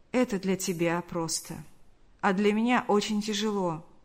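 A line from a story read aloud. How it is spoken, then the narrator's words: Sad reply. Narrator (Russian): грустно улыбнулся и ответил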